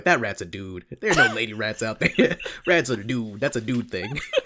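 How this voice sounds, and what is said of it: Bad Hannibal Buress impression. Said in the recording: “That was a really bad Hannibal Buress impression.”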